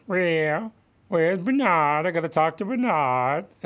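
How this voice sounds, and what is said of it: Cartoonish imitated voice. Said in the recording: “It's a cartoon voice.”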